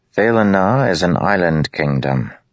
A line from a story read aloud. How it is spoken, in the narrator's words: Lirin said calmly